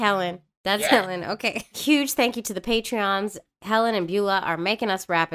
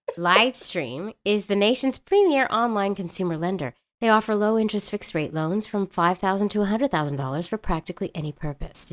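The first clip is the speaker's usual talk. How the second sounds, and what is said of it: Smooth radio announcer voice. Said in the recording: “Did you like that radio voice? That was good,”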